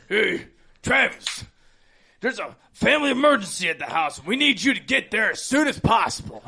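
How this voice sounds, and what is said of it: Obviously fake disguised voice. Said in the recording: “you can tell it's a fake voice immediately ... he almost sounded like Sam, like his impersonation of Sam.”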